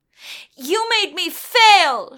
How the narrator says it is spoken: she yelled

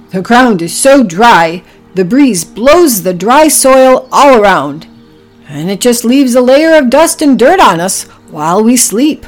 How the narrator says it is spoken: grunted Oliver

